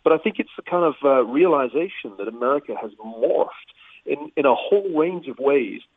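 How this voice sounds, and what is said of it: British English accent. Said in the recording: “you can tell from my accent, I'm an immigrant originally from the UK”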